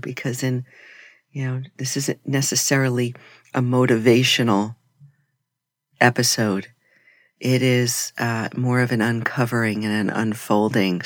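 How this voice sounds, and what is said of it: Soft, slow voice. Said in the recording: “my voice is a little bit softer today ... our voices will get softer, slower”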